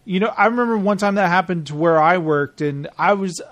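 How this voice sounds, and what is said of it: Usual voice. Nothing is said of it.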